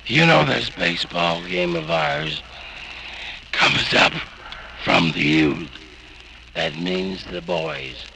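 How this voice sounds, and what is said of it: Strained, bad-sounding voice. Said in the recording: “You know how bad my voice sounds.”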